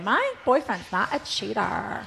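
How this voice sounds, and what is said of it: Imitates another person's voice. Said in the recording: “That's a very good imitation... I don't even know if it is a good imitation... It sounds great.”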